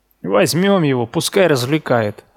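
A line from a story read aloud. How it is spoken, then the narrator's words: Laughing. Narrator (Russian): рассмеялся Дин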